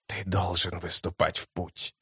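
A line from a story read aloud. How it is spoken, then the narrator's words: Hoarse rasp. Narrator (Russian): прохрипел он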